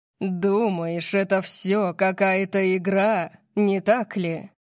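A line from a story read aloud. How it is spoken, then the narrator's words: Growl. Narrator (Russian): Прорычал он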